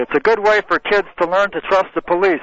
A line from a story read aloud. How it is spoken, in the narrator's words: said Mr